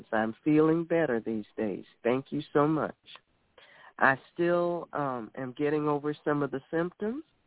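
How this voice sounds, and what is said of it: Weaker voice than usual. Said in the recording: “my voice is not as strong as it usually is”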